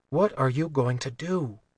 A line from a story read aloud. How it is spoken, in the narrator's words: Vi whispered